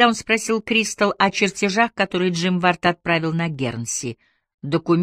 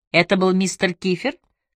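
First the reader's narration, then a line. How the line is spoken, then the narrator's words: Plain. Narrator (Russian): спросил Сент-Джеймс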